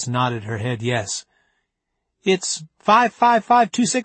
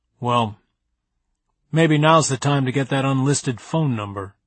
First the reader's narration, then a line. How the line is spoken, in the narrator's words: he grumbled